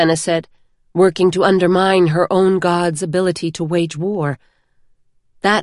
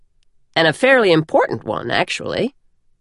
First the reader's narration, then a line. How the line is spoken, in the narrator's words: Denth said with a chuckle